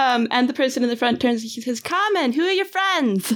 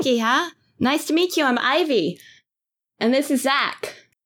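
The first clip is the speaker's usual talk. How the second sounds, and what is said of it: Put-on Boston accent. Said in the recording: “I'm going to butcher a Boston accent”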